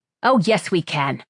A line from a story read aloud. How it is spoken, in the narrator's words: Sparrow snapped